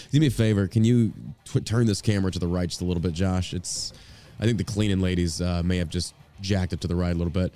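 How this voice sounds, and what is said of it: Congested, sick-sounding voice. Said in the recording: “I sound sick as a dog right now... something hit me, just nasal congestion”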